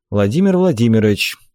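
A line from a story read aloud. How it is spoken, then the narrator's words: General's dry tone. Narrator (Russian): Сухо сказал генерал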